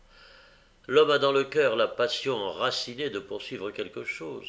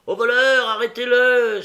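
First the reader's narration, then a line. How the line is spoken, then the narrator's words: Joyful shout. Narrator (French): s'écrie-t-on avec joie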